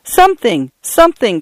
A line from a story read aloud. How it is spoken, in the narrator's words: cried Paula